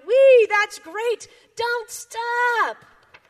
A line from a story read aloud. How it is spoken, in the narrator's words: Frog cried